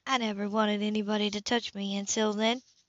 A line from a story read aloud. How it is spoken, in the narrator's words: she said softly